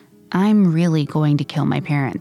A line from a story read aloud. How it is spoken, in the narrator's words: he said again